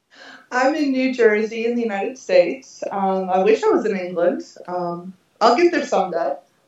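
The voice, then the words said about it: Non-English accent, not British. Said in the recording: “I can tell immediately from your accent that you're not in sunny England”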